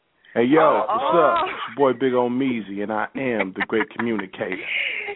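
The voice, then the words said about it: Deep put-on radio announcer voice. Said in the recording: “what's wrong with this voice? He been yelling at folks? ... that's ... radio voice ... Is that my grown man voice?”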